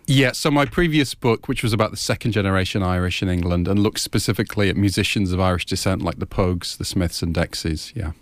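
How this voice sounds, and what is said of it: English accent, not Irish. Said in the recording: “I was expecting an Irish accent. ... Irish name, Scottish surname, English accent.”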